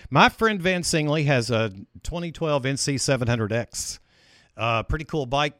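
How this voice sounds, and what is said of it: Announcer-style radio voice. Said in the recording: “I'm using my radio voice.”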